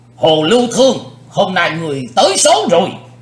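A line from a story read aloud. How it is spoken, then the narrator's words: Old man's loud shout. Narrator (Vietnamese): Lão cục tài hét lớn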